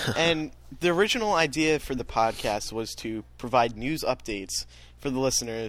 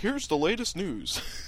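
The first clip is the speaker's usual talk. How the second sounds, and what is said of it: Mock newscaster voice. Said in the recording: “That was my news impersonation”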